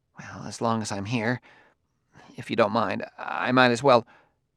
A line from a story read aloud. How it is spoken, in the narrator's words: he mumbled